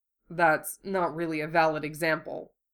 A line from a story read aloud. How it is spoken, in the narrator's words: muttered